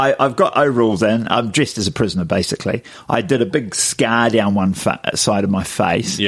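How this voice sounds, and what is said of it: Usual voice. Nothing is said of it.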